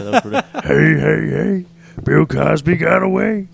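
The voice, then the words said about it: Cartoon character voice, Fat Albert. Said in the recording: “He actually did some Fat Albert ... I did Fat Albert just like I'm going to do it again”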